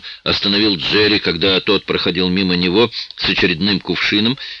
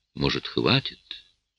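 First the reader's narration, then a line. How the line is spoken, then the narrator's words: Soft gentle woman. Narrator (Russian): Джин тихо произнесла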